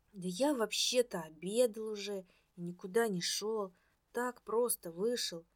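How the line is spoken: Monotone mumbling. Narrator (Russian): монотонно бормотал Пономаренко

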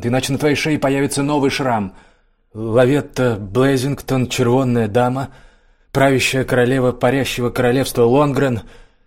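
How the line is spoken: Read aloud loudly. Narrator (Russian): громко прочитал Лиссандр

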